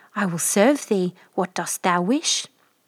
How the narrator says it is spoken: In a trembling voice the prince answered

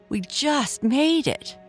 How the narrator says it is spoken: Araya yelled

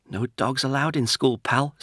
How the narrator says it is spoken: said Bobby, his voice wobbling a little

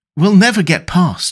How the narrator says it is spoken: Anita gasped

